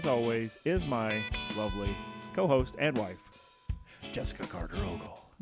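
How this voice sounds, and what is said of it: Exaggerated radio announcer voice. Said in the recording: “I just put on this dumb radio voice”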